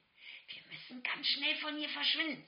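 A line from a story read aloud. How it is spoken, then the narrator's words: Mother hissing. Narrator (German): zischte meine Mutter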